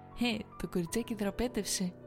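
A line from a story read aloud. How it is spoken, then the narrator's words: Giggling. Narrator (Greek): είπε χαχανίζοντα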